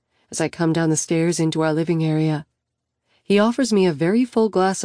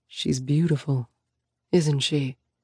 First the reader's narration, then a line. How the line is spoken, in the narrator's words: Sam murmurs